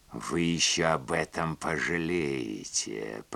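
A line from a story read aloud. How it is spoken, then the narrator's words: Hiss. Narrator (Russian): прошипела она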